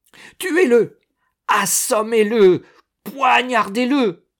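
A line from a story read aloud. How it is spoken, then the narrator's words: Woman screaming wildly. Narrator (French): une femme échevelée vociférait ses clameurs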